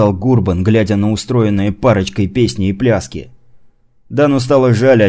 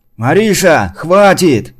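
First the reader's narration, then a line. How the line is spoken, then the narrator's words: Shout. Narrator (Russian): крикнул Ашот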